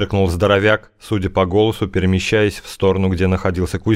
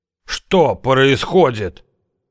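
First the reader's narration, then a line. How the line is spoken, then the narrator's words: Dramatic pained exclamation. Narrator (Russian): патетически воскликнул Венедим, которого грубо поставили на ноги, прибольно заломив при этом руки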